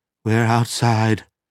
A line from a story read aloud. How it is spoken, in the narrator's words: Dieter gasped